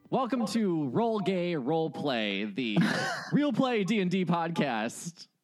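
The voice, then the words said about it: Exaggerated radio announcer voice. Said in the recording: “It sounds like a radio voice. It sounds so bad.”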